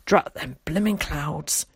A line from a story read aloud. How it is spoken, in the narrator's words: he muttered